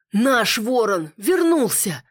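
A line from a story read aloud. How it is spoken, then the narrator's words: Another voice exclaiming. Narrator (Russian): воскликнул еще один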